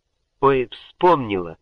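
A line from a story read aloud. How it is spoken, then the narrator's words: Exclamation. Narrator (Russian): воскликнула Гордыня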